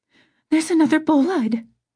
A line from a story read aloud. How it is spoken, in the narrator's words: Camilla squeaked